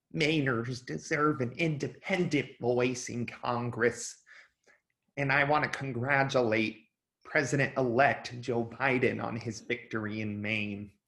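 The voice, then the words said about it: Imitates another person's voice. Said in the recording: “I'm about to do a pretty bad Susan Collins accent”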